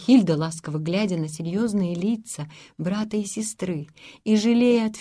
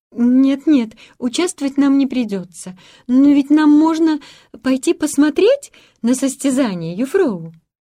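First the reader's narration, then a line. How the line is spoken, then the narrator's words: Timid embarrassed babble. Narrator (Russian): тут же покраснела и робко пролепетала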